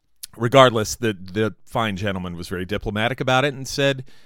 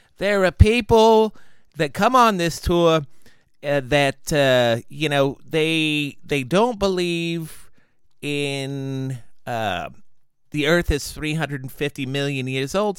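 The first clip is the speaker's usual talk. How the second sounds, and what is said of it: Southern accent shifting to New York. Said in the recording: “I went from a Southern accent to some weird, like, New York accent in a heartbeat.”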